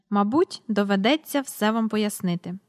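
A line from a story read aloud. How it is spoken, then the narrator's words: Calm. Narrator (Ukrainian): спокійно сказав містер Перук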